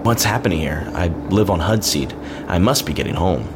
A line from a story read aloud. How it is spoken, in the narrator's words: Tucken exclaimed with the aggravation on the back of every word